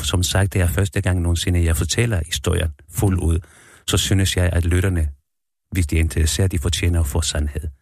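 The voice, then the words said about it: Slight foreign accent in Danish. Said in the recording (Danish): “chilensk født. Det er også derfor, du har en vis accent.”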